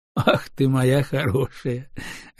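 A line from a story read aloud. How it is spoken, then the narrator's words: Laughing. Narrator (Russian): рассмеялся Семен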